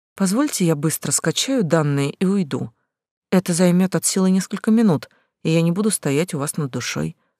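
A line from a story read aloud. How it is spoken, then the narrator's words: Calm young woman. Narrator (Russian): спокойно сказала девушка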